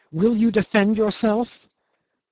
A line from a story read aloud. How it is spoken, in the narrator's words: she cried menacingly